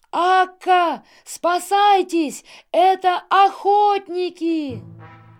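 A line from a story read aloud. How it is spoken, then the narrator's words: Terrified boy's shout. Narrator (Russian): мальчик в ужасе крикнул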